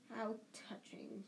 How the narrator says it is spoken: he hissed

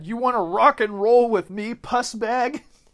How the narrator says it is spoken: was yelling obscenities at the trucks and said

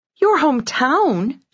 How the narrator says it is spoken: squealed

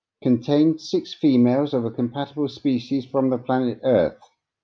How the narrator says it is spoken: Kangarar answered

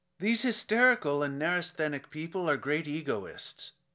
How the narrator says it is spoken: went on bitterly

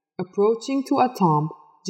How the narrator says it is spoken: Jilani called out

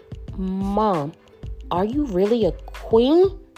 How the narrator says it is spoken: Grace was shocked by her mother's words and stuttered to ask

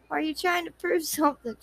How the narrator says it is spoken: She murmured

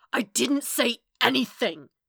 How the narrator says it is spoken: Matt snarled

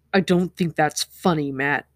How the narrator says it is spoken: Rand growled

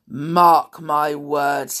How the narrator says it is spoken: he growled

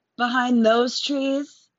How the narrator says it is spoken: Maggie shouted

